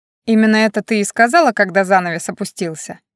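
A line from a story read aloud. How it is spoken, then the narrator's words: Laughing. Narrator (Russian): засмеялся Дариан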